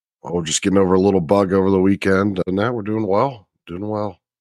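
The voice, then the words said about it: Deep voice, slightly sick. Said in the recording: “beautiful, deep voice, even with a little bit of a bug”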